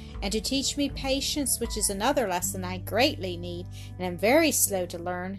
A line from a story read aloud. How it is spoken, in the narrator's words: sighed Mildred